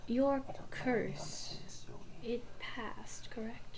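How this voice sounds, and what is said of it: Whispering. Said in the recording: “He's gonna kind of whisper a little bit.”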